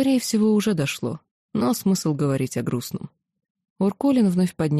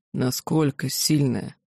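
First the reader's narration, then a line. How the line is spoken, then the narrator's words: Muffled question. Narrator (Russian): глухо спросил Уркулин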